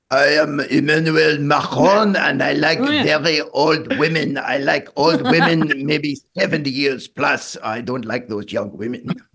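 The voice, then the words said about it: Emmanuel Macron impression, French accent. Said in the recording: “on the French accent? ... that's my Emmanuel Macron impression.”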